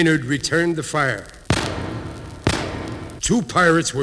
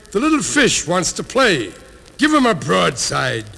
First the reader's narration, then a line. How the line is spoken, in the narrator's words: bellowed Blackbeard